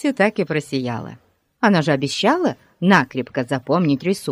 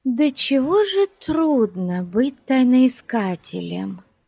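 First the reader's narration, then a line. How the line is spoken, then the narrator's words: Sighing. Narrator (Russian): вздохнула Бетси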